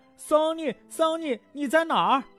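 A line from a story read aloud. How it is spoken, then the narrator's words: Shouting while running. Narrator (Chinese): 他们……一边跑一边大声喊着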